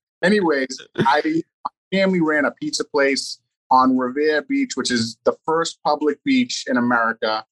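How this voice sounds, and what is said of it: Boston accent. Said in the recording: “don't mind the Boston accent here”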